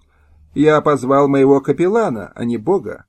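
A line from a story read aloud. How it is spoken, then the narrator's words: Cold retort. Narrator (Russian): холодно возразил Потоцкий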